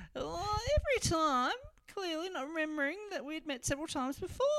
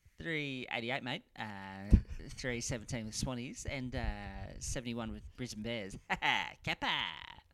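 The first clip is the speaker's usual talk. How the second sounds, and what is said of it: Imitates another person's voice. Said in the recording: “It's a pretty good impression. ... No, it's very good.”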